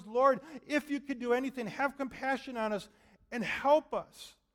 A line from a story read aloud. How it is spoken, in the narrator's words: he cries out to the Lord and says